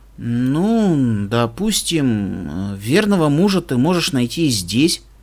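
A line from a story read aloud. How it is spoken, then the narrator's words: Embarrassed mutter. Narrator (Russian): пробормотал, чувствуя, что краснею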